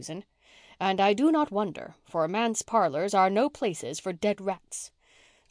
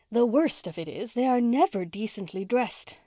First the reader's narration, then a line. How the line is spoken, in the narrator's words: sighed Miss Cornelia